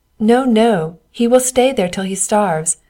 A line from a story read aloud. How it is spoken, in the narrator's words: said the king's men and laughed so heartily at him